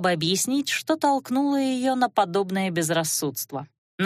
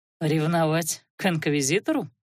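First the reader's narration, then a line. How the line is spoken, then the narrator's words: Skeptical snort. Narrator (Russian): скептически хмыкнул Алиорн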